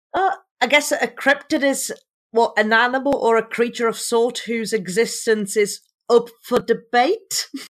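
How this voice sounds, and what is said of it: Accent that sounds formal. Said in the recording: “Your accent makes you sound like more formal.”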